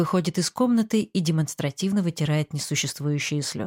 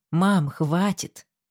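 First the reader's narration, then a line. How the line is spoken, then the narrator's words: Irritated raised voice. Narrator (Russian): Раздраженно повышаю голос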